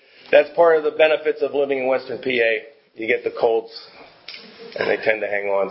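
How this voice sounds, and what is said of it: Dry voice from a cold. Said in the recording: “I'm just getting over a bad cold yet... my voice is a little bit dry here”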